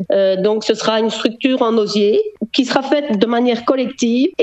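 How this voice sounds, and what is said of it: Slight Belgian French accent. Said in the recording (French): “on entend dans votre façon de vous exprimer un petit accent belge”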